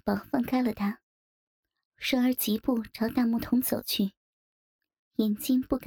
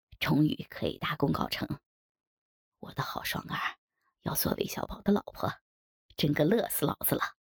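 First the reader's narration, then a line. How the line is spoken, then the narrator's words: Excited laughing. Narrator (Chinese): 韦小宝一时兴奋，笑道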